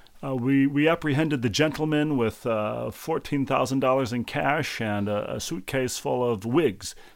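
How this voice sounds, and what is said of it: Put-on New York accent. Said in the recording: “always that accent ... It's always the New York accent.”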